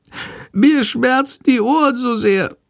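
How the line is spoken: Meek sickly whimper. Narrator (German): jammert die kranke Fledermaus ganz kleinlaut

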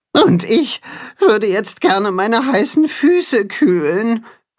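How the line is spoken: Groaning. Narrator (German): stöhnt das Katzenhuhn

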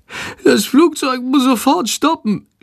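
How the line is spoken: Groaning. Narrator (German): stöhnt Schandor

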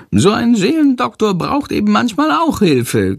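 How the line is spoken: Giggling. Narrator (German): kichert Chandor

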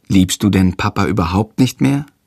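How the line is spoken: Plain. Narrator (German): fragt Jendrik

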